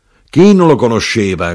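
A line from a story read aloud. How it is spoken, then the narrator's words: Knife-grinder shouting. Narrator (Italian): gridò l'arrotino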